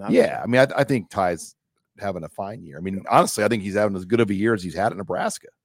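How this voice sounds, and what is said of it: Hoarse, strained voice. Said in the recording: “I'm losing my voice. ... That screaming in the press box.”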